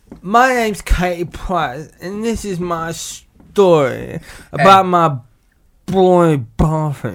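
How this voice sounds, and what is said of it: Impression of Katie Price. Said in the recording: “do an impression of Katie Price”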